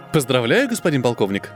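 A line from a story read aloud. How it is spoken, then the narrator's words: Joyful, smiling. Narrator (Russian): радостно улыбнулась Елена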